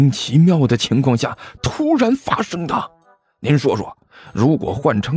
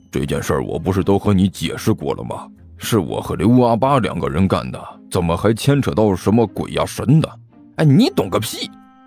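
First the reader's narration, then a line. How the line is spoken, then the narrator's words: Low, exasperated voice. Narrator (Chinese): 尼才实在是忍不住了，低声问道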